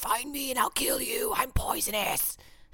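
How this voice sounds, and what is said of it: Voices a duck-billed platypus character. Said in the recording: “duck-billed platypus impersonation ... That's my impression.”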